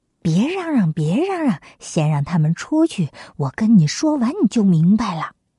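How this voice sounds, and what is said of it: Quiet hushed voice. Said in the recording (Chinese): “小声的对太子说”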